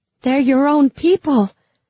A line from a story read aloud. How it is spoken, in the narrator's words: I cried desperately